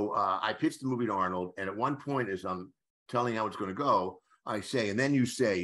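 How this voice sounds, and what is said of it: Usual voice. Nothing is said of it.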